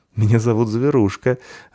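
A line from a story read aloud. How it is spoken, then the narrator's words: Laughing. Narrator (Russian): рассмеялась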